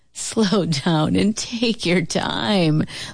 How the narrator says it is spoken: laughed Uncle Booker T

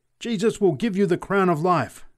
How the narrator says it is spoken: screamed the preacher exultantly

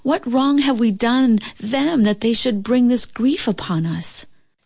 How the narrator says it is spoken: the mother wept, and the farmer pleaded

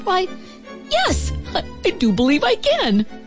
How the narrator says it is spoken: Calvin, the happiest starling in the whole wide world, chirped

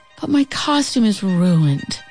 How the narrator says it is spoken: Celie sighed

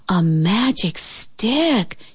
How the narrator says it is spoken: gasped

